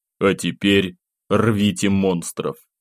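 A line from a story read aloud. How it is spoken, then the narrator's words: Dry, curt remark. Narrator (Russian): сухо бросил я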